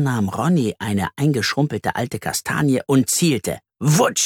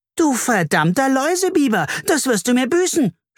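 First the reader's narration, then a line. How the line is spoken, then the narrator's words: Screamed. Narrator (German): schrie Carla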